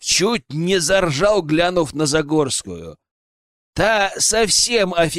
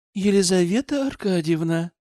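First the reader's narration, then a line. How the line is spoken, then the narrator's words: Ingratiating tone. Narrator (Russian): вкрадчиво проговорила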